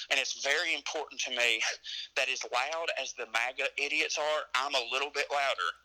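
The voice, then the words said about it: Southern US accent. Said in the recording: “the South ... when they hear my accent”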